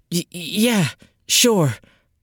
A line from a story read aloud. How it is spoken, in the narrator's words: she stammered